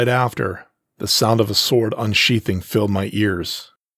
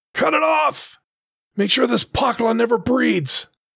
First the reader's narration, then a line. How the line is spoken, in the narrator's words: one of them yell